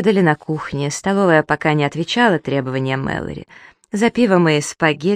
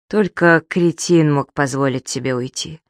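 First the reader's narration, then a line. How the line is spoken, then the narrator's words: Sighing. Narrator (Russian): Зоя вздохнула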